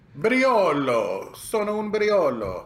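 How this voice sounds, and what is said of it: Attempted Italian accent. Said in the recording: “I can't even do an Italian accent.”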